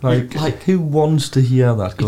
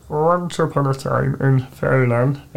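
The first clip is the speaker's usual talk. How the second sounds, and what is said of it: Harry Kane impression. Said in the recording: “I will show you the Harry Kane accent.”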